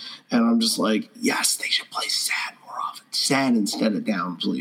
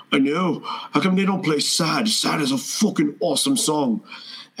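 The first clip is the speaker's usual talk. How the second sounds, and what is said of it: Put-on British accent sounding Irish. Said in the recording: “your British accent is also the same as your Bono accent, so you might want to work on that ... Everyone is Irish.”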